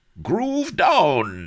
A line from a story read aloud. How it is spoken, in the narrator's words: he cried as he shook revoltingly